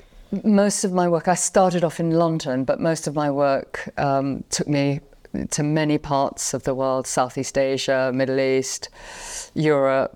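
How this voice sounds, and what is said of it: London English accent. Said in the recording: “some people probably can tell by your accent, you're not from the South ... I'm from London in England.”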